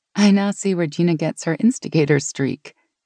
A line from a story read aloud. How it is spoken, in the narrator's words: Meg said with a nervous laugh